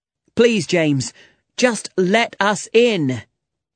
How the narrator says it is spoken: shouted John

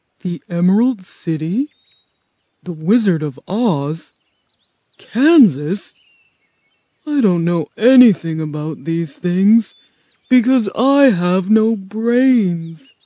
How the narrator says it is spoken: the scarecrow said sadly

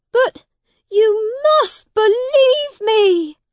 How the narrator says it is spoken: cried the prince

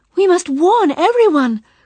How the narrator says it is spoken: cried Bila

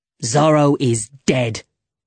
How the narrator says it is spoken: said Montero angrily

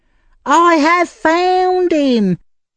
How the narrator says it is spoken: cried the young woman

